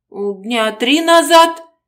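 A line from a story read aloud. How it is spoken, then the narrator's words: Girl speaking uncertainly. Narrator (Russian): неуверенно проговорила девушка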